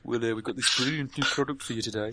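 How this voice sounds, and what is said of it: Poor put-on Brummie accent. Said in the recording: “It's not a very good grummy accent.”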